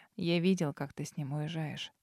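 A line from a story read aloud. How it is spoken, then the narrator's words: Quiet. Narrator (Russian): тихо произнес Дар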